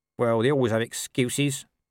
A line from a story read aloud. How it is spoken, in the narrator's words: said Nobby sullenly